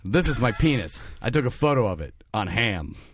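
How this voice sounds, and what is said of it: Imitates another person's voice. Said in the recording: “That's my John Hammond impression.”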